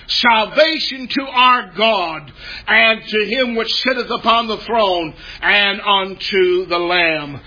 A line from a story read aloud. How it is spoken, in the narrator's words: they are shouting